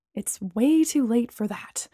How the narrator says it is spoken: I muttered

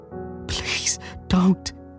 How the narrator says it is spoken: says Susan, her voice high and quivering despite its low volume

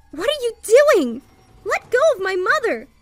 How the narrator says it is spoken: I shouted

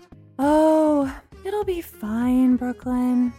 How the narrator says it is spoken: Bree said dreamily

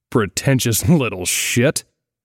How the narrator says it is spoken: he grunted

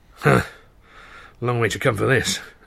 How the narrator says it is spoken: Asher muttered

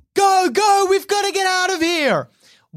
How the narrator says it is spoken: Oliver screams at the kids

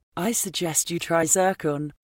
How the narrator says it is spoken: she said brightly

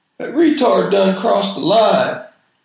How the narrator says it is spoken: somebody in the back yelled

